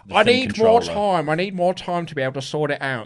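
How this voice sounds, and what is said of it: Imitates another person's voice. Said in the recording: “that's a very good Randy impression”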